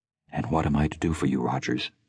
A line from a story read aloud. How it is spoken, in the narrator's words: asked evenly